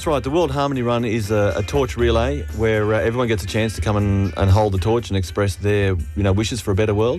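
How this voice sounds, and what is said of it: Australian accent. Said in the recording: “is that Aussie accent? ... You've got the Aussie twang going on there.”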